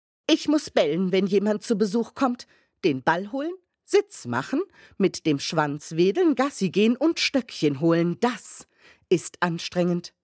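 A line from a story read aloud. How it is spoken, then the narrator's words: Stern. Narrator (German): fuhr Holly streng fort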